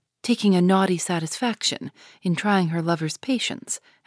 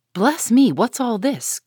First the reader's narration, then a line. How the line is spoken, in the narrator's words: cried the old lady